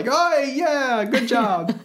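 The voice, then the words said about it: Put-on Australian accent. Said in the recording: “they're going to berate you about that accent, though, there. ... I wasn't trying to pull an Australian accent.”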